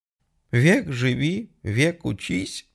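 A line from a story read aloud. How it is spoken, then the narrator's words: Sob over the phone. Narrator (Russian): всхлипнула трубка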